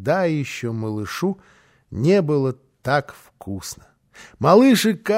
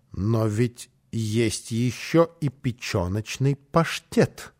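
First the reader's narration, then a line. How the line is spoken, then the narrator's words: Pointedly calm tone. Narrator (Russian): сказала подчеркнуто спокойным тоном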